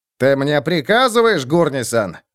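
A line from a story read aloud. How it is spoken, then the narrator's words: Growl. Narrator (Russian): прорычал Роди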